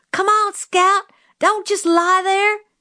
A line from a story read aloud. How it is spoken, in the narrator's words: Jim was screaming